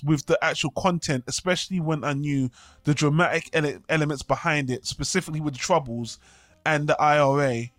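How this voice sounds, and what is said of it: British accent. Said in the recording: “I'm British, as everyone can tell from my accent,”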